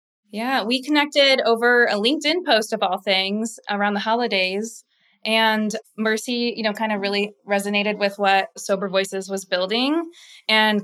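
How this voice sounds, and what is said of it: Midwestern American accent, almost Canadian. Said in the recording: “I'm like almost Canadian with my Midwestern accent.”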